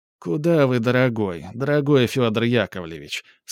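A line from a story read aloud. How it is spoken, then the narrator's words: Deep sigh, countess speaking. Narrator (Russian): сказала, глубоко вздохнув, графиня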